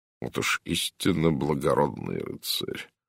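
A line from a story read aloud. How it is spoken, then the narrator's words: Muttered. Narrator (Russian): пробормотал Жерар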